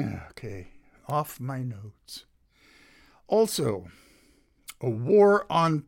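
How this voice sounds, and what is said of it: Usual voice. Nothing is said of it.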